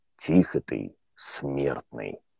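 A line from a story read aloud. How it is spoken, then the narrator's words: Husky voice, big man. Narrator (Russian): сипло произнес детина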